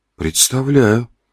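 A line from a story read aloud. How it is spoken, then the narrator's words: Muttered. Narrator (Russian): пробормотал рыжие два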